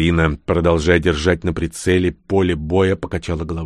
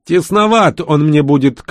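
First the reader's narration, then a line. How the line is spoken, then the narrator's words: Shouted reply. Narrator (Russian): крикнула она в ответ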